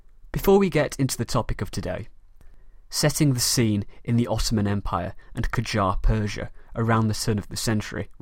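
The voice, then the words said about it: British Mancunian accent. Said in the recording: “my accent, I am British ... a very proud Mancunian, from the city of Manchester in the north of England”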